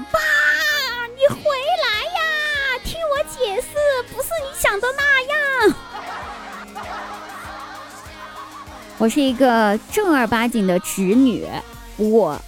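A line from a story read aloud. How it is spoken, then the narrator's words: Loud shout. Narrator (Chinese): 我在背后大声的喊道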